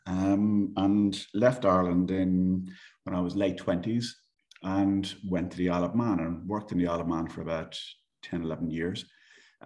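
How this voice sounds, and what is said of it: Irish accent. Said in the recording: “as you might tell from my accent, I am Irish”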